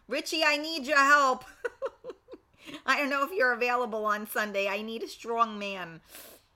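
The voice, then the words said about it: Strong Staten Island New York accent. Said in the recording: “Love hearing your accent. ... People either love it or hate it ... you're from Staten Island, so, you can't help it. We have, we talk like truck drivers.”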